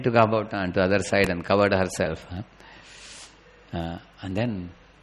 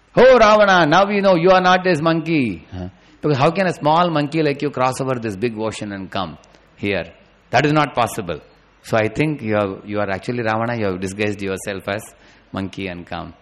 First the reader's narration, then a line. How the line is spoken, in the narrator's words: she shouted